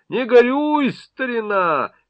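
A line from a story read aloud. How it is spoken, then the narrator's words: Forced, unnatural shout. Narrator (Russian): Соляревский прокричал ненатуральным голосом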